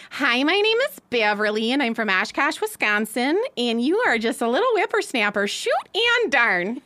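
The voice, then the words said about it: Put-on Wisconsin Midwest accent. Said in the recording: “Well, you mean the Wisconsin? ... that Wisconsin accent”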